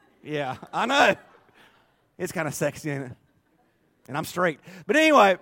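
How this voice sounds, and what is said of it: Usual voice. Nothing is said of it.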